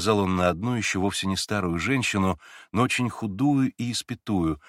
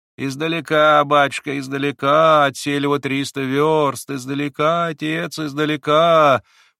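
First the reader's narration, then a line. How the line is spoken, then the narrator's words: Woman's singsong. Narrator (Russian): проговорила женщина нараспев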